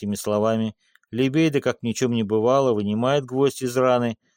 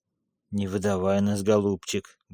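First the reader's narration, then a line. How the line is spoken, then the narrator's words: Muttering. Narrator (Russian): бормочет он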